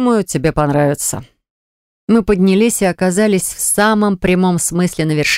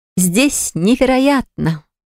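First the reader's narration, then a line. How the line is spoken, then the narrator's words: Exclaiming with ringing laughter. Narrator (Russian): звонко смеясь воскликнула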